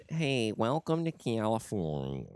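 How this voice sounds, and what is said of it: Nasal Californian dork voice impression. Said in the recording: “I sound like a fucking dork from California ... Like my nose is stuck up somebody's butthole and it's being pinched ... that's not a good impression”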